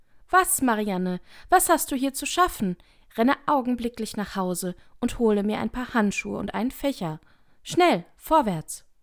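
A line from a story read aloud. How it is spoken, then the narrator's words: Rabbit's angry call. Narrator (German): Das Kaninchen rief es ihr ärgerlich zu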